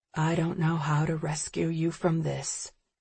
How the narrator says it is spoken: he admits softly

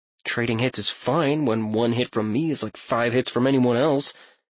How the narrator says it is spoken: Talion mumbled, quiet enough for his sparring partners to hear, but hopefully not loud enough for Herod

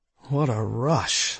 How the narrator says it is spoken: I murmured

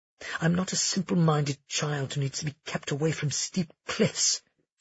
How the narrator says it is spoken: she muttered

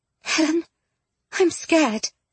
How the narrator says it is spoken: Jane whispered

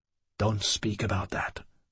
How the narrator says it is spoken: I whispered

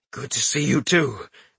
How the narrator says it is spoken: the man said in a pained voice

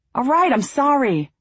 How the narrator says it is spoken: Sawyer yelled

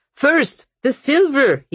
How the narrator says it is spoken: he shouted

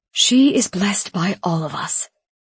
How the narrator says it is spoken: he declared in a haunting tone

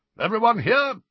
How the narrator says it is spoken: barked Professor Grubbly Plank

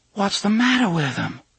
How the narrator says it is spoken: Susanna asked, in a soft, horrified voice

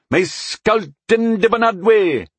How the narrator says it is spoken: There was a brief shout of

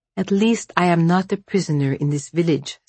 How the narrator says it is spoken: said Vasya

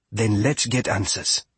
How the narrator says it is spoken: Fia said

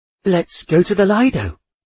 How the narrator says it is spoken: Aunt Louisa cried eagerly

